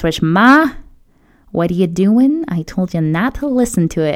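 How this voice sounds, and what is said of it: Put-on New York accent. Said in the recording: “I keep doing a New York accent whenever I talk about my parents”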